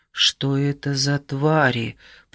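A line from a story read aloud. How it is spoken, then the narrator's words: Muttering. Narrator (Russian): пробормотал Окамото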